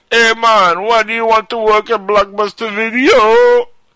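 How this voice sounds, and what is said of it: Heavy Jamaican accent. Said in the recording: “spoke with a heavy Jamaican accent... sound like Bob Marley”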